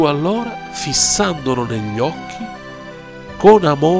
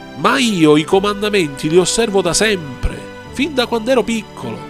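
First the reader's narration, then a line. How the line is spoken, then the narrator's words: Rich man's proud exclamation. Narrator (Italian): L'uomo ricco esclamò, pieno di orgoglio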